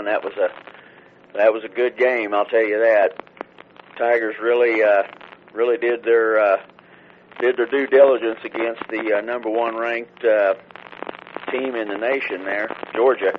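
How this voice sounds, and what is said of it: Scratchy, hoarse voice. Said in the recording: “my voice is a little scratched up here because I was at the MU game last night, kind of yelling”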